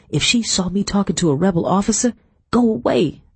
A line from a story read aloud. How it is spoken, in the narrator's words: I muttered